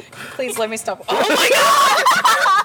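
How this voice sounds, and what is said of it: Screaming. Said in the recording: “stop screaming!”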